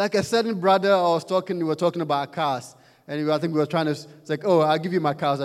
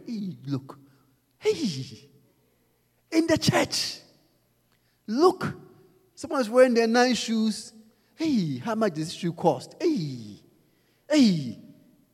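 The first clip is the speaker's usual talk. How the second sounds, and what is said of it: Whispering gossip voice. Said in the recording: “So whisperers. ... Whisperers. Always whispering something.”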